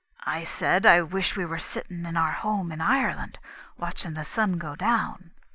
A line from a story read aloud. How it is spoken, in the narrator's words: whispered